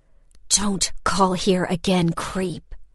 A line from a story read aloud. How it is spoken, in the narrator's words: I hissed into the phone